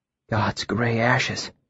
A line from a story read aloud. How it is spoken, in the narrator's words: Sim said, his voice hushed in grim earnest